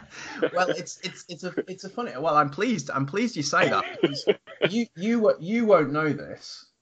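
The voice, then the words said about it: Northern English accent. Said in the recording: “makes me sound really important when you say it in a British accent... I'm from the north of England”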